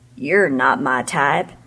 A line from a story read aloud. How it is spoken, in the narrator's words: he grumbled